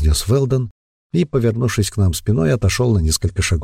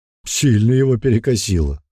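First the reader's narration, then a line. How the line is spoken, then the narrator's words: Snort. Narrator (Russian): хмыкнул Бран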